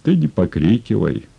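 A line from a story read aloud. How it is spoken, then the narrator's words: Calm. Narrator (Russian): спокойно сказал Емельян Спиридонович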